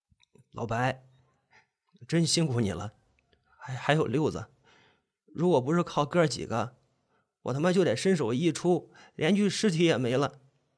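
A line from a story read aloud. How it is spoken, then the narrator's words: Sniffling, hoarse voice. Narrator (Chinese): 抽了几下鼻子，我沙哑着喉咙说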